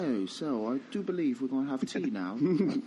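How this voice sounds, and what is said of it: Put-on British accent. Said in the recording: “having a British accent just out of nowhere”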